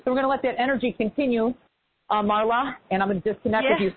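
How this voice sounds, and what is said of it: Out of breath, breathless speech. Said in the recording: “because I'm out of breath ... I'm out of breath”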